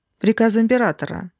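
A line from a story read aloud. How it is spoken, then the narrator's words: Calm speech. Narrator (Russian): спокойно проговорил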